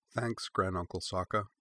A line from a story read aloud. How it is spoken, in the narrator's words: she said quietly